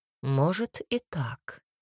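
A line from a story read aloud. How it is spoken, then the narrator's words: Calm reply. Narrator (Russian): спокойно ответил Гассерт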